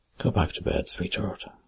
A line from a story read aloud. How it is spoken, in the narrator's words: I murmured